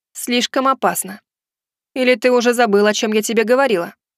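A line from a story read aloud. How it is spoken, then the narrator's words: Stern question. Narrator (Russian): Строго спросила Хотару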